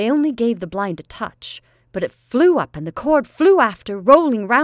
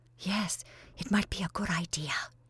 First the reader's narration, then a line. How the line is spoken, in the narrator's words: whispered Constantia